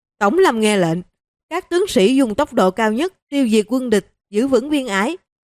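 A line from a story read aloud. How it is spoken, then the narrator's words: Shouted with full force. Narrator (Vietnamese): Tống Nghị hít sâu mấy hơi, dùng hết khí lực quát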